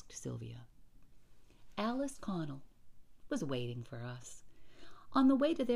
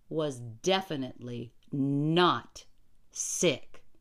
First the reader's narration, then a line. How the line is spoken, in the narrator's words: I said firmly